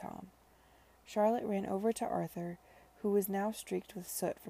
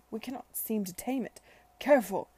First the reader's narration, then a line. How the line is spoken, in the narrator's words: cried